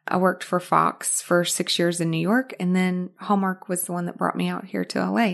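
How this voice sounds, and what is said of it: Arkansas Southern accent. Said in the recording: “you have a fabulous accent ... So that's where the accent comes from, Arkansas ... I haven't lost that accent at all”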